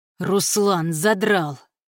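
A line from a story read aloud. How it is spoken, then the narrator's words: Furious hiss. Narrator (Russian): яростно прошипел стилет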